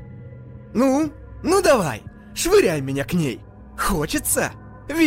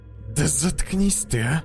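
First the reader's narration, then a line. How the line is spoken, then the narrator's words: Grumbling. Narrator (Russian): проворчал он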